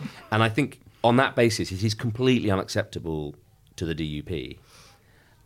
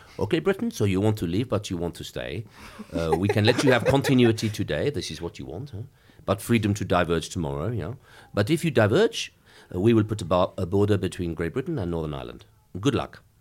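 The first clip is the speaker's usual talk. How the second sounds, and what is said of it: Put-on French accent. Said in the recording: “if your listeners can bear a French accent”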